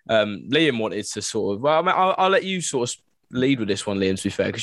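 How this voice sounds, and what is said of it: Non-northern English accent. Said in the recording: “Definitely not from the north, as you can probably tell by my accent.”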